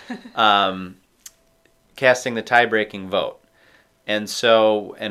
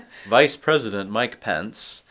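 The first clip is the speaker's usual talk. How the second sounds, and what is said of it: Mike Pence impression. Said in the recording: “like my Mike Pence impression?”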